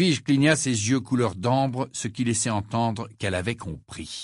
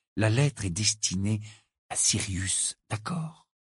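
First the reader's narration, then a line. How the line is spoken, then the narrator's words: Uncertain murmur. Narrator (French): murmura-t-il sans vraiment savoir pourquoi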